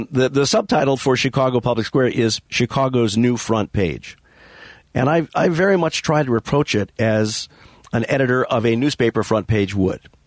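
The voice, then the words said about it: Losing voice, strained. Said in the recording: “I'm losing my voice. I'm not sure why, but I am.”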